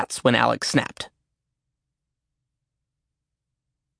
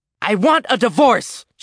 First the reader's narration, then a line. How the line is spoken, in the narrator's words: she yelled